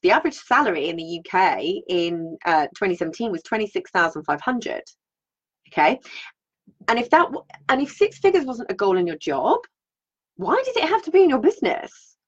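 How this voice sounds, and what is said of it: British accent. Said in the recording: “I'm in the UK, if you haven't guessed from the accent”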